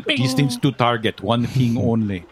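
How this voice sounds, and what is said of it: Put-on Russian accent. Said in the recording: “in a Russian accent”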